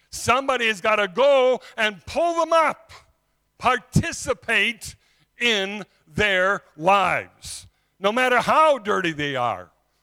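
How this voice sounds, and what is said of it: Afrikaans-speaker's accent. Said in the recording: “They came from the nation that you can hear from my accent. ... Afrikaans”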